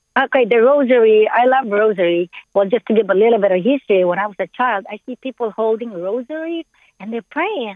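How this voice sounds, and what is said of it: Speaks English with an accent. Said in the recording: “I have a accent.”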